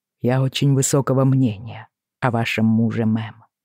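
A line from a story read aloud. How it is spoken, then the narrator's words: Calm. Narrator (Russian): добавил он спокойно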